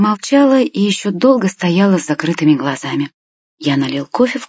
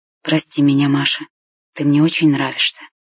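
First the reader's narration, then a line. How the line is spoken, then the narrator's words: Whispered. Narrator (Russian): я прошептал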